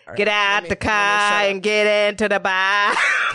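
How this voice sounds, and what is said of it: Put-on Boston accent. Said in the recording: “I like a good Boston accent.”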